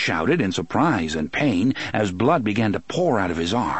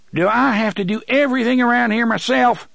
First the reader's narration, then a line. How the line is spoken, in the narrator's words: TikTok shouted, more exasperated than angry, it seemed